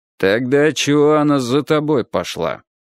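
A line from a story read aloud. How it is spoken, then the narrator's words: Gloomy question. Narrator (Russian): мрачно спросил фаэтонщик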